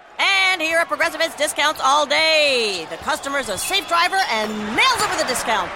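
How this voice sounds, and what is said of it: Play-by-play sports announcer voice. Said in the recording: “my impression of a play by play announcer who loves to save money”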